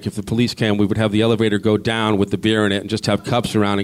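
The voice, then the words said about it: Massachusetts accent. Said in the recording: “Where'd you grow up, though, in Massachusetts? Because you got that accent.”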